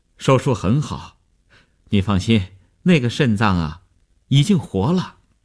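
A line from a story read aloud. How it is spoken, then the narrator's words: Relieved, smiling. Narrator (Chinese): 医生放心地笑笑说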